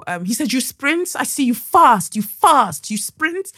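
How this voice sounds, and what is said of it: Attempted Brazilian accent. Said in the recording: “I can't do a Brazilian accent. I'm so sorry.”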